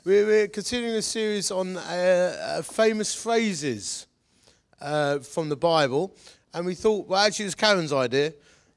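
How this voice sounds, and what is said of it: Slightly odd-sounding voice. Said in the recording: “slightly weird voice”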